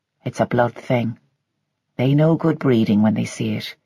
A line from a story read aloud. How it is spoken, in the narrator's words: he had said quietly